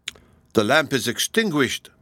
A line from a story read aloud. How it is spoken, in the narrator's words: cried he